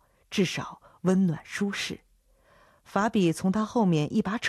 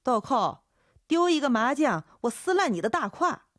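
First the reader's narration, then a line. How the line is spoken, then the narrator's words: Shouting. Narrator (Chinese): 粗皮黑胖的姚姐喊道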